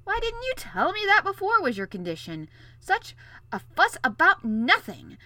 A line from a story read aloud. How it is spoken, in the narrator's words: exclaimed